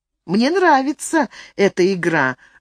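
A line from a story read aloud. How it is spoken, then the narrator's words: Laughing. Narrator (Russian): засмеялась Марта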